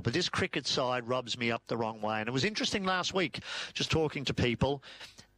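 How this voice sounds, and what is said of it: Irish accent. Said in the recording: “Irish twang of an accent I've got”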